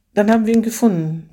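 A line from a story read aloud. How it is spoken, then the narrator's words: Sighing. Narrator (German): vollendete sie mit einem Seufzer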